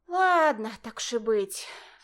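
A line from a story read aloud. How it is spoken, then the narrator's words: Sighing. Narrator (Russian): вздохнула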